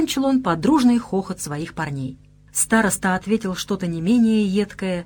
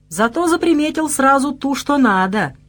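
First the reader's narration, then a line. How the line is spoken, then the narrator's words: Undignified giggle. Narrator (Russian): как-то совсем не солидно хихикнул господин Броун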